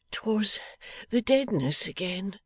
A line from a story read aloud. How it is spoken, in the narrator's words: murmured Betty Higden with a hand to her head